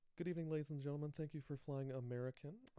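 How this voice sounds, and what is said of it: Sassy flight attendant announcement voice. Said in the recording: “sassy and has had it with everyone on the plane ... I'm going to try to do a gay black stewardess impression in the mic”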